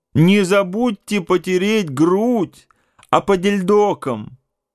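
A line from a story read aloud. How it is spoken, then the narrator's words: Shouting after someone. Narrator (Russian): кричала вслед Марья Михайловна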